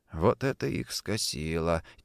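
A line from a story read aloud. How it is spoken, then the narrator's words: Quiet speech. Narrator (Russian): тихо произнес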